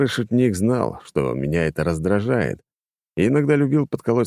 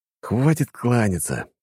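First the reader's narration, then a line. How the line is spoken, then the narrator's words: Hissed through teeth. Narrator (Russian): сквозь зубы, прошипел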